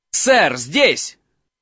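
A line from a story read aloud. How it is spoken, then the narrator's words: Shouting. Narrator (Russian): закричал Гарри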